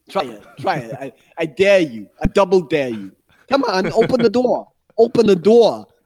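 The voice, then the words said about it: Bad New York mobster accent. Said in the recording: “my New Yorker mobster accent. It's terrible”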